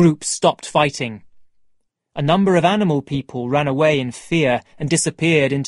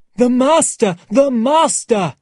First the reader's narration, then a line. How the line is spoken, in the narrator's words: Someone cried